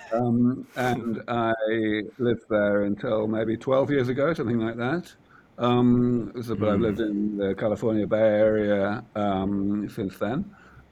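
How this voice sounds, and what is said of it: British accent. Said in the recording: “you can probably tell from my unintelligible accent, I am from that far off place called the rest of the world, from the UK.”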